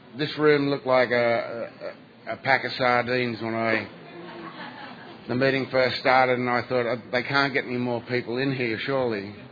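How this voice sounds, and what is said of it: Australian accent. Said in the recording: “I'm from Sydney, Australia ... understand my accent”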